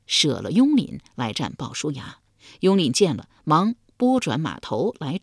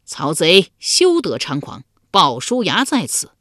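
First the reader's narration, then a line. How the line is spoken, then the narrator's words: Loud challenging cry. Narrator (Chinese): 一将，高声叫道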